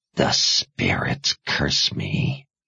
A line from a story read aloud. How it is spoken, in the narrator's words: said under her breath